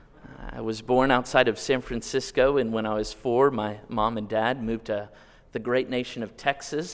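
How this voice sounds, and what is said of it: Noticeable regional accent. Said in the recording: “You can probably tell from my accent, I ain't from around here.”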